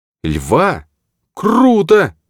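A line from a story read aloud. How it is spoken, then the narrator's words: Exclaimed. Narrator (Russian): воскликнула Оливия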